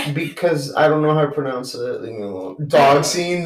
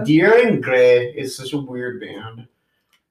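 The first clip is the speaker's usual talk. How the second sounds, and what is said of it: Put-on Irish accent. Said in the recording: “with an Irish accent”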